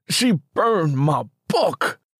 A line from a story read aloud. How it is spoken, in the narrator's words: Simmy roared